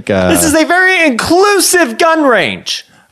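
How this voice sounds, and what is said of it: Loud, yelling voice. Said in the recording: “you're yelling at us ... Does it feel like the volume is louder”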